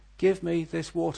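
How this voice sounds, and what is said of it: Desperate, pleading exclamation. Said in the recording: “This is a voice of desperation.”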